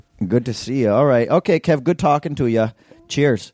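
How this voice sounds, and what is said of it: Put-on Canadian accent. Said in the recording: “talking weird these days ... He's got a Canadian accent.”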